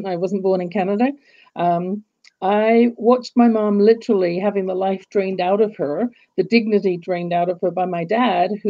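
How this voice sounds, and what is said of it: English accent. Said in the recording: “growing up in England, as you can tell from my accent”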